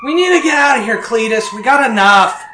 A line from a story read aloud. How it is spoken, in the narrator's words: Donna yelling from the front